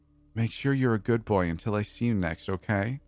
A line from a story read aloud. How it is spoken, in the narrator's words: saying in a baby voice